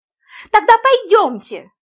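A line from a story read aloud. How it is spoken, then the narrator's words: Pleading woman. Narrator (Russian): взмолилась американка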